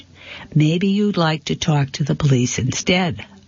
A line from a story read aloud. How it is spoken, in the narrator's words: I said in the same calm voice